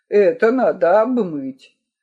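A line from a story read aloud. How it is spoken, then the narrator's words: Solemn. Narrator (Russian): Ван Рильст торжественно произносит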